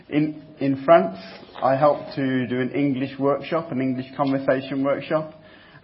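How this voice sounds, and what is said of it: Noticeable non-native accent. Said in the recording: “my accent”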